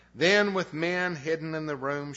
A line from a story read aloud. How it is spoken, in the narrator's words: she called out to him